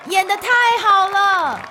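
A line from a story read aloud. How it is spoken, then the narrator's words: Shouting. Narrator (Chinese): 皮妈妈大喊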